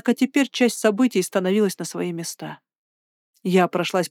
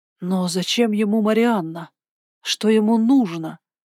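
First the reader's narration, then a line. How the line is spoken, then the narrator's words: Hoarse breathless. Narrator (Russian): хрипло выдохнула я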